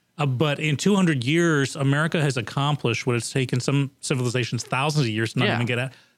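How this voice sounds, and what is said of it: American accent. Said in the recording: “my accent”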